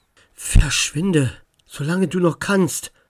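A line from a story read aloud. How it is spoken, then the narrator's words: Whisper. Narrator (German): flüsterte Max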